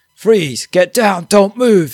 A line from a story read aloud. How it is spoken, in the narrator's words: One officer they steam in, yelling and shouting